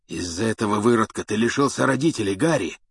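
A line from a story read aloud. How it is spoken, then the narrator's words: Hoarse rasp. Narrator (Russian): прохрипел Блэк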